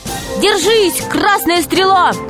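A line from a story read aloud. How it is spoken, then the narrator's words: Crowd shouting from stands. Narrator (Russian): кричали с трибун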